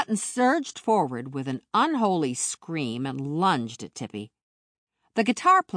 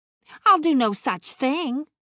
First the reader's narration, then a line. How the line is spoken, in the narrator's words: the pert blonde snapped